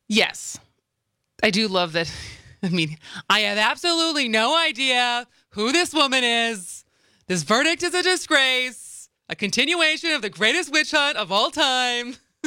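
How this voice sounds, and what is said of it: Donald Trump impression. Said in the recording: “That's your first Trump impression. ... That's my first Trump impression.”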